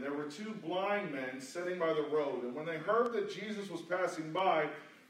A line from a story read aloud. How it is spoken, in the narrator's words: they cried out